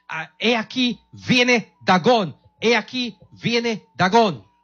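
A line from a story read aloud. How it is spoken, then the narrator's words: Shout. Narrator (Spanish): gritó a los que estaban a la orilla del mar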